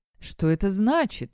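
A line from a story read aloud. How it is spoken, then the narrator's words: Exclaimed. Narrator (Russian): воскликнул один из членов Совета Скиткаста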